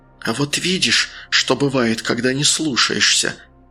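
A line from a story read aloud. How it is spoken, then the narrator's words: Nearby hiss. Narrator (Russian): прошипело где-то рядом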